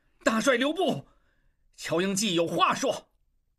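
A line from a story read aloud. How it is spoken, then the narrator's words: Shouting. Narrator (Chinese): 望柏大叫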